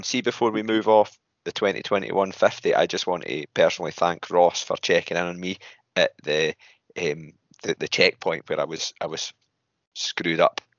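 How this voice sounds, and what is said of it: Scottish accent. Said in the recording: “I kind of clocked your accent. I was like, oh, another Scottish guy.”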